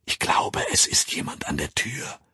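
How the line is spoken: Whispering. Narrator (German): flüsterte

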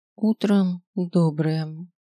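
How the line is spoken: Muffled answer. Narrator (Russian): ответила Мидва глухо

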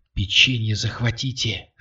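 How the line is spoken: Female whisper from another room. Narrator (Russian): шепнула из комнаты Катя

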